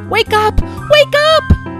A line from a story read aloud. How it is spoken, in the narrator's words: they shouted